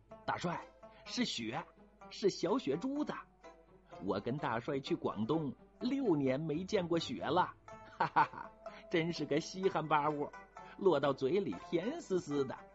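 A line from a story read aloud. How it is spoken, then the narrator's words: Delighted exclamation. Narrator (Chinese): 吴师兄惊喜地叫着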